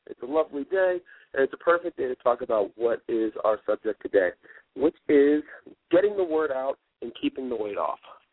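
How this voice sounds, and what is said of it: Stuffy, congested voice from cold. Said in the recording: “I have a little bit of a cold, so I sound a little bit stuffy.”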